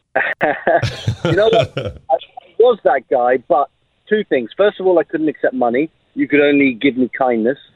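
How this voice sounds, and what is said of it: English accent. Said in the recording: “I had my English accent”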